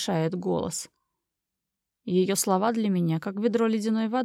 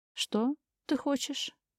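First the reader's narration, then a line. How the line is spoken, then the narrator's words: Barely audible. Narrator (Russian): Произносит едва слышно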